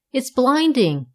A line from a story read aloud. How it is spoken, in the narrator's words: he cried